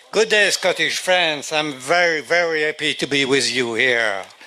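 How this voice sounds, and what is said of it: French-accented English. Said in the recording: “I'm European with a French accent.”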